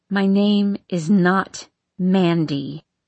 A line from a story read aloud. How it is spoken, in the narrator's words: she growls